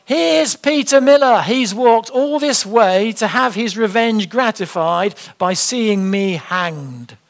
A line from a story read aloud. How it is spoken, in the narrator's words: Whitman again shouted out